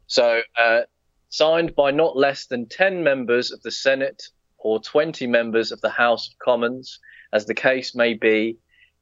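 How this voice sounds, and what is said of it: Speaks with a distinct accent. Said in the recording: “your lovely accent”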